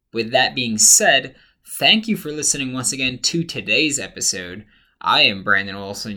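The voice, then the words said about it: Tired, worn-out voice. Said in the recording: “apologize for my voice. Um, I have not slept in now 24 hours ... very exhausting time”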